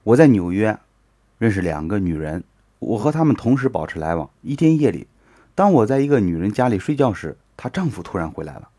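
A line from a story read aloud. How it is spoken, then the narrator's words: Man, bitter smile. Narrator (Chinese): 男人苦笑的说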